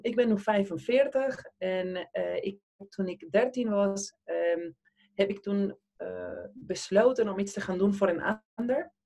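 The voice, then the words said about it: Argentine accent speaking Dutch. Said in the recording (Dutch): “ik kom zelf uit Argentinië, dat hoor je zeker in mijn accent”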